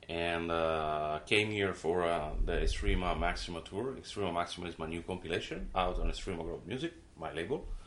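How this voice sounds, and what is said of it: Noticeable foreign accent in English. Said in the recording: “people will recognize you have an accent”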